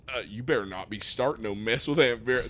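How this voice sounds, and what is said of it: Put-on country accent. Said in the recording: “They both have this like country accent”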